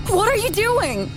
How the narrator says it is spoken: I screamed

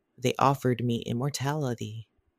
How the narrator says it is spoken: he whispered

